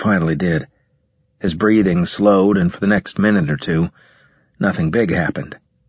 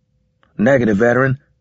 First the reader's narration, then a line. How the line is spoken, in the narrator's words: I said